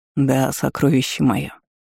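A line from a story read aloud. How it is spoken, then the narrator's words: Hoarse laughing lord. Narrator (Russian): Хриплый смех владыки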